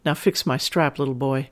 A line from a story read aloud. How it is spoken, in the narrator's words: say sweetly